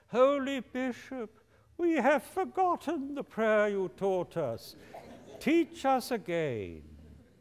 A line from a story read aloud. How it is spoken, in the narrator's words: the three hermits called out to him